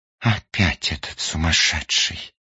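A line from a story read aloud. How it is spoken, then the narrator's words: Sighing woman. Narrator (Russian): вздохнула одна из пассажирок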